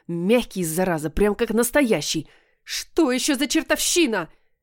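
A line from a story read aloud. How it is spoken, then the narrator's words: Desperate wail. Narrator (Russian): Я завопила от отчаяния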